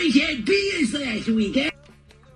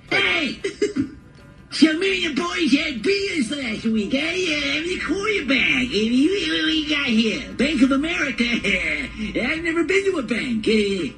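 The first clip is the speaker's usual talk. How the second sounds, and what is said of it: Put-on Philly accent. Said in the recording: “What accent was that? ... Philly, I think”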